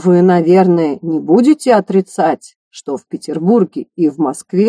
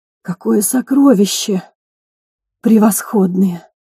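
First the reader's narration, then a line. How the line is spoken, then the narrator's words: Two delighted whispers. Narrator (Russian): Восторженно шептали оба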